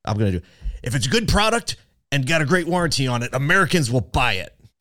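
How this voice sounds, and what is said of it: Impression of a car dealer CEO. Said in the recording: “my Rhett Reichert impression”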